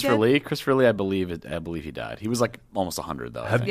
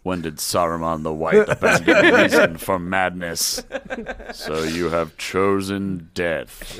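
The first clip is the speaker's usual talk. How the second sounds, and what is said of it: Good Saruman character voice. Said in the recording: “It's a pretty good Saruman impression”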